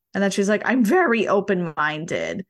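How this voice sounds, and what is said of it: Good impression of a mom. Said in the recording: “good impression”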